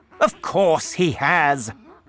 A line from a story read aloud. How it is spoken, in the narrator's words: shouted Mr